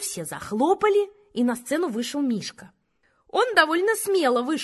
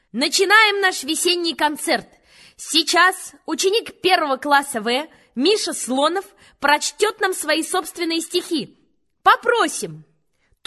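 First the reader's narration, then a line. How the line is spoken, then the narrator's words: Loud announcer voice. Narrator (Russian): Она сказала громким голосом, как по радио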